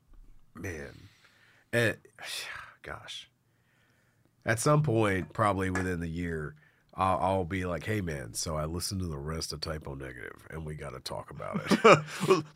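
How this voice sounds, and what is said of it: Congested, sick-sounding voice. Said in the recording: “my fucking weird ass voice and hacking and snotting and coughing ... doing your best Peter Steele impression”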